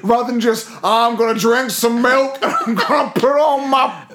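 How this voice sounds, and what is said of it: Put-on American trucker accent. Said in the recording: “just another offensive American accent”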